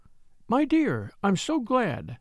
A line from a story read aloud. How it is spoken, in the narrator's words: she said warmly